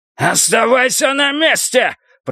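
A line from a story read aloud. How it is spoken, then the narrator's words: Shouting. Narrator (Russian): прокричал Ренни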